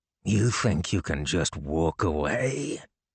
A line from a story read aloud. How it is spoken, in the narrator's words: H spoke as gruffly as usual